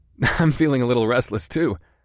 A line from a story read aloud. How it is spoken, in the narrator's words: I laughed